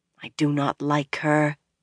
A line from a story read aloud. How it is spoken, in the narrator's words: Egwene muttered, low enough to make sure the Aes Sedai could not hear